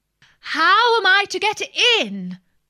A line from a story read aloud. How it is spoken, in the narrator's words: said Alice in a louder tone